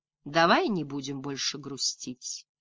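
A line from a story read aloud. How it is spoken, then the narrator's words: Gentle, affectionate. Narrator (Russian): ласково сказала она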